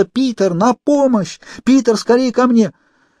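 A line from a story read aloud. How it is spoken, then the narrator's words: Desperate scream. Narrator (Russian): Охваченная отчаянием, она снова закричала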